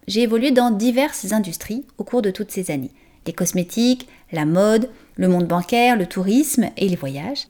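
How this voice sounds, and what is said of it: French accent from France. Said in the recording (French): “française d'origine, vous l'entendez sûrement dans mon accent”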